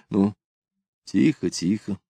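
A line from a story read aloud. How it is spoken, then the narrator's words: Slow, quiet, fading voice. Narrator (Russian): произнес Рандольф медленно и негромко, голосом, подобным гаснущему свету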